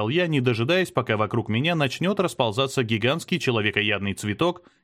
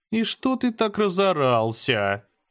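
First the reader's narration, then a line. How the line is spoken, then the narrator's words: Lazy, indifferent. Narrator (Russian): Лениво отозвалась она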